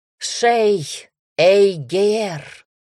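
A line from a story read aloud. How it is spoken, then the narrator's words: Crowd shouting hoarsely. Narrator (Russian): Взорвались трибуны, закричала вместе с остальными, до хрипоты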